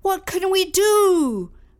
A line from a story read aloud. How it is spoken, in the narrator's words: shouted out loud